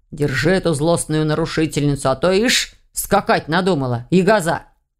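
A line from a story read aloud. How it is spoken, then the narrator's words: Declaring. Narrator (Russian): заявил страж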